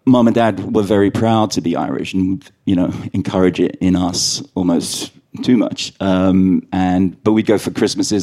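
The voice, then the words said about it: London accent. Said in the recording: “my accent is very London, but London Irish is probably a good way to describe me”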